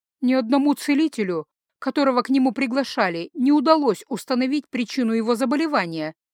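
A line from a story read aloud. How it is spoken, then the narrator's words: Frightened. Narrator (Russian): испуганно сказала я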